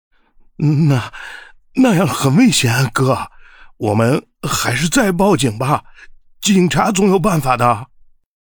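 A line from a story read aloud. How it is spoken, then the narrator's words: Tense, trembling voice. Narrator (Chinese): 小郭紧绷了身子，颤声道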